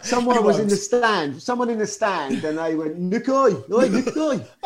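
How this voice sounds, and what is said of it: Put-on regional English accent. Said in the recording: “I'll try the accent, whether I get it right or not.”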